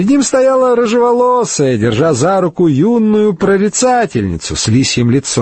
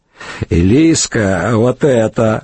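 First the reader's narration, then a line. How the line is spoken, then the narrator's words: Laughing woman. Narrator (Russian): хохотнула рыжеволосая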